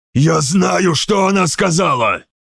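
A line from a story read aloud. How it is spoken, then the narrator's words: Spitting hiss. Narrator (Russian): прошипел Марвари, брызгая на лестницу слюной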